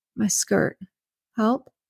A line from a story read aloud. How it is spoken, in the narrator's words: croaked out